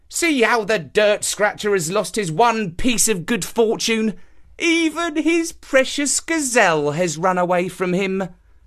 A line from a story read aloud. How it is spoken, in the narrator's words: The villagers mocked him, saying